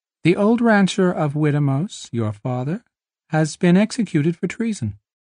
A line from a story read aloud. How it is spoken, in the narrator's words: his voice was high-pitched, thin